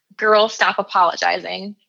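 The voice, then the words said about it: Little sassy put-on accent. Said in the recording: “I always say that like that in that little accent, that little sassy accent whenever I say that title out loud.”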